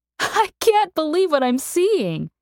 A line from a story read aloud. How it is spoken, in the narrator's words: she laughed